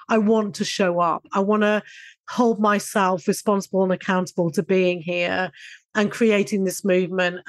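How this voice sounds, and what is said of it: Odd, congested voice from a cold. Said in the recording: “cutting over kind of quite heavy cold ... my voice sounds a bit odd”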